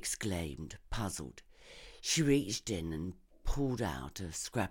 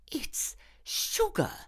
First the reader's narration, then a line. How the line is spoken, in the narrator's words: she gasped